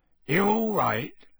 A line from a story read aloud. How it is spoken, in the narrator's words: he said gruffly